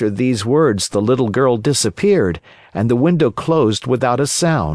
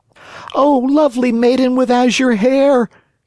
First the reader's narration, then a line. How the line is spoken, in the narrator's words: cried Pinocchio